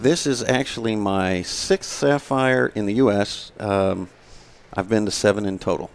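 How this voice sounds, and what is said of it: Slight Texas twang. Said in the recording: “Is that the accent I'm hearing? ... There's a little bit of a twang there”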